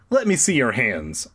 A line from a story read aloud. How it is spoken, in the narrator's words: I said sharply